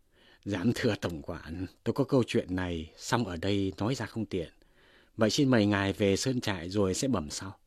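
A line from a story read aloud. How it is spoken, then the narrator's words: Smiling. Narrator (Vietnamese): Tống Giang liền mỉm cười nói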